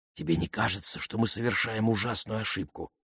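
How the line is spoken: Whisper. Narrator (Russian): прошептала Памела

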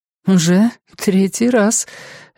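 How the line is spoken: Slightly tense laugh. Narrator (Russian): Вика немного напряженно засмеялась

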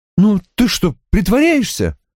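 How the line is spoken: Exclaiming. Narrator (Russian): воскликнула она

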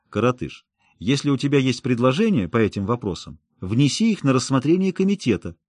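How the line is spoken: Calm tone. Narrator (Russian): Каупер уже спокойным тоном сказал

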